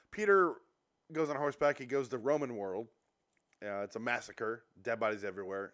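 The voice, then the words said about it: Sick, strained voice. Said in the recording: “This is my 7th episode in a row tonight with a sick voice... I'm getting better at not losing my voice.”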